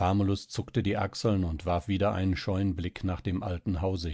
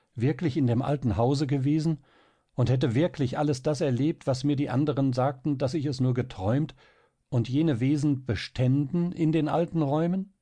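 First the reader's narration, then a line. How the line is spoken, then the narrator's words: Quick, startled cry. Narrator (German): rief Marie schnell und fast erschreckt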